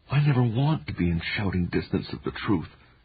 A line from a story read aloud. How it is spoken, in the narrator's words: whispered